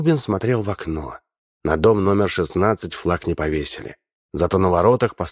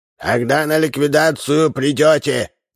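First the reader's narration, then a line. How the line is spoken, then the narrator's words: Shouted. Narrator (Russian): крикнул он старикам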